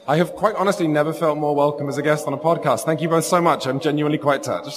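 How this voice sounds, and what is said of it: Sultry British accent. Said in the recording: “a sultry, beautiful British accent”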